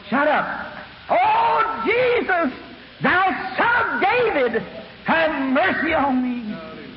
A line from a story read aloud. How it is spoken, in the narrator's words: The rest of them around here hollering also